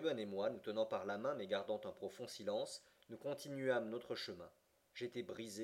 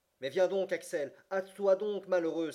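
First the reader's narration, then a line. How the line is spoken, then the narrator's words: Shouted from afar. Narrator (French): s'écria mon oncle du plus loin qu'il m'aperçut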